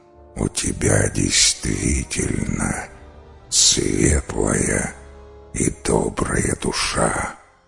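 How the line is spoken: Monster's creaky voice. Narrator (Russian): проскрипело чудовище

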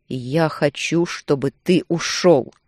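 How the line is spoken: Growl turning to shrill whine. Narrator (Russian): Рычание перешло в пронзительный скулеж

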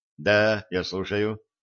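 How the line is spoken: Impassive voice. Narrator (Russian): бесстрастным голосом ответил Эль

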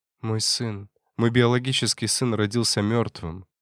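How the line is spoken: Quiet. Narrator (Russian): тихо сказала Мария

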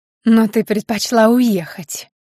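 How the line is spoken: Hissing reply. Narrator (Russian): зашипела в ответ мачеха

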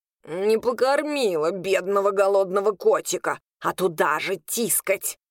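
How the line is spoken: Grumbling. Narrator (Russian): проворчал он

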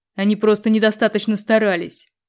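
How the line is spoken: Growled. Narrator (Russian): рыкнул Грегордиан

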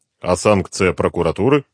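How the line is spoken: Plain. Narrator (Russian): спросил Дронго

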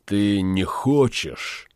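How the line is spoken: Sigh. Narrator (Russian): вздохнул Франк

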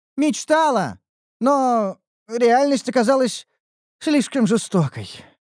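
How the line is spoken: Sigh. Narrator (Russian): вздохнула Ниуру

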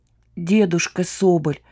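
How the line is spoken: Strained, suffering. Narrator (Russian): страдая, выдавил Бусы

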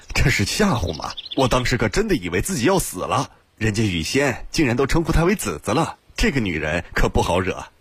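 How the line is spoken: Wry bitter laugh. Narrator (Chinese): 新建苦笑道

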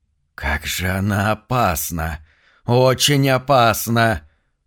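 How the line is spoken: Hissing from behind. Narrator (Russian): прошипел кто-то за спиной

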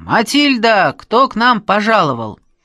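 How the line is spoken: Old man's hoarse bass shout. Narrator (Russian): дедушка Степан и прямо с порога кричит хриплым басом

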